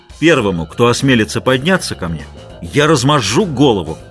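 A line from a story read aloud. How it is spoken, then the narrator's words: Shouted. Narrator (Russian): крикнул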